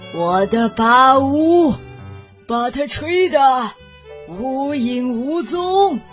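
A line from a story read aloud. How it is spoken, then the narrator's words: Elephant roaring. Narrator (Chinese): 大象大吼道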